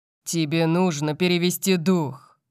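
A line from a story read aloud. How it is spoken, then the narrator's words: Thundering voice. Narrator (Russian): прогремел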